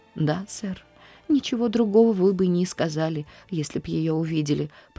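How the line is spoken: Tearful. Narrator (Russian): продолжала Нэнси сквозь слезы

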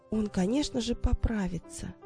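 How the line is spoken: Quiet speech. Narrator (Russian): тихо проговорила Дженни

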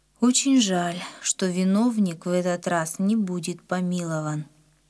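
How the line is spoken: Sad. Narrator (Russian): Папа печально сказал

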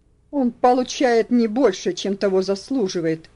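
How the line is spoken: Angry husband. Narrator (Russian): сердито ответил муж

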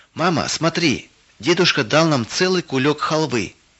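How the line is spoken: Shouted from doorway. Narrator (Russian): крикнула Вера с порога

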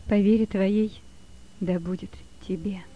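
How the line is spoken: Sad. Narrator (Russian): сказала она, грустно смотря на него

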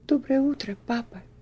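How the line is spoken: Quiet trembling voice. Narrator (Russian): тихим, дрогнувшим голосом произнесла Эльси

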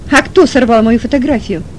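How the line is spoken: Angry shout. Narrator (Russian): Гневно выкрикнула Иванова

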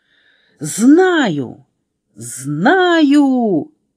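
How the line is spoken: Sudden shout. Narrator (Russian): вдруг закричала Аля

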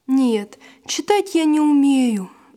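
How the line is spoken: Sighing. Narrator (Russian): вздохнул Василь

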